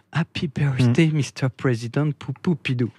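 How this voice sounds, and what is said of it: Sensual imitation of another person's voice. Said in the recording (French): “dites-moi si je le fais bien ... Vous avez presque cet accent sensuel”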